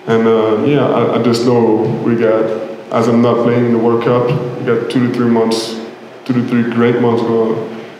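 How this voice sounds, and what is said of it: Accented speech with echo. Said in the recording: “with the accent and the echo, it's a little bit hard to hear”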